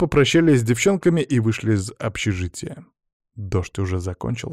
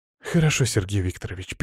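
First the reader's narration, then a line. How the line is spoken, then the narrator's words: Sad, barely audible mumble. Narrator (Russian): печально вздохнула и тихо пробормотала, что едва удалось различить слова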